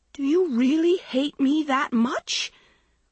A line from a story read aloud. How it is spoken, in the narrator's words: Maggie shrieked